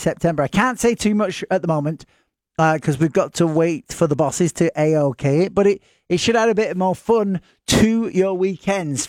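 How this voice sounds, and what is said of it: Northern English accent. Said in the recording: “talking a lot of Northern English nonsense ... They even understand my accent.”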